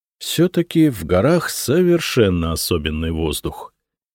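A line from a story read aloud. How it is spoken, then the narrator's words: Delighted mutter. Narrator (Russian): с восторгом пробормотал я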